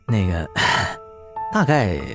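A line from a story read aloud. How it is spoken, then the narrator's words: Gritted-teeth hesitation. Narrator (Chinese): 红毛咬了咬牙，说道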